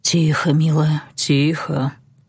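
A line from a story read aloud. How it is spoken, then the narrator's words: Hoarse breathy voice. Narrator (Russian): хрипло выдохнул он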